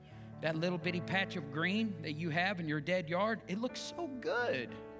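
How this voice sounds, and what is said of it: Sarcastic mock-praising tone. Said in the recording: “that's me being sarcastic.”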